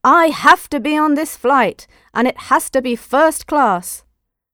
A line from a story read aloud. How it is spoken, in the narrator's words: an angry passenger shouted